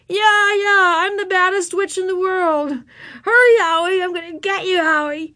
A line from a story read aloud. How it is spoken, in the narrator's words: yelling through her mask